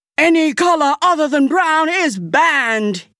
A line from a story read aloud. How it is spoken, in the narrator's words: he shouted